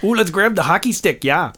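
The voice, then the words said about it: Poor put-on Minnesota accent. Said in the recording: “That was probably a horrible Minnesota accent.”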